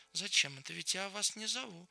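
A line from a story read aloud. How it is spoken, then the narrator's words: Cold. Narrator (Russian): холодно посмотрела на них, промолвила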